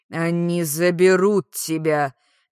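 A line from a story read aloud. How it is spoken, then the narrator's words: Displeased growl. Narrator (Russian): недовольно прорычал ахтаринец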